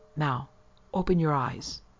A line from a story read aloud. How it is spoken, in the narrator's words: said, almost in a whisper